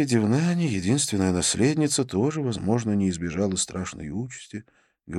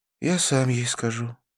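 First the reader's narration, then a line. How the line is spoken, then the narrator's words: Sad. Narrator (Russian): печально произнес Навин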